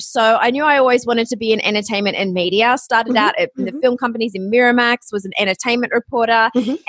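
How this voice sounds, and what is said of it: Australian accent. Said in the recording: “You might recognize from the sound of my voice, I am Australian.”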